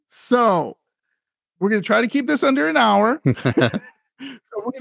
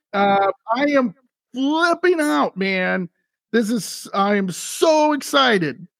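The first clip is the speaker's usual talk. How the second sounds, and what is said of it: Excited yelling. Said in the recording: “stop yelling”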